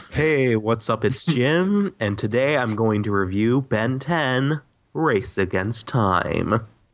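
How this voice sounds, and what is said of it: Flat monotone imitation of another person. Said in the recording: “You talk in a monotone voice now.”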